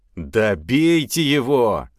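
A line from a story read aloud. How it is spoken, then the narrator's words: Shouting fallen horse. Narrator (Russian): закричал упавший конь, не в силах встать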